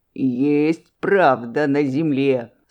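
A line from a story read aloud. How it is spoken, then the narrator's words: Laughing uproariously. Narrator (Russian): Скотница Аксинья хохотала до упаду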